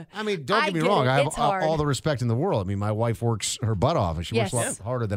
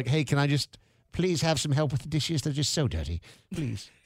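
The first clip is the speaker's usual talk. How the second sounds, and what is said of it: Pitiful Tiny Tim-style voice. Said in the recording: “start talking like Tiny Tim”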